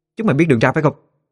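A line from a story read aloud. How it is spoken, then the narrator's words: Loud shout. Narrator (Vietnamese): Tiếng quát lớn của Nguyệt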